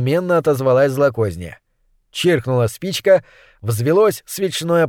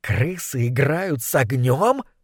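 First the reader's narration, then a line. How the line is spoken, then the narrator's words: Hiss. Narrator (Russian): прошипела злокозня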